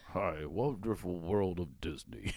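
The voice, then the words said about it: Imitates another person's voice. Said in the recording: “Walt Disney impression ... Oh, that's not bad.”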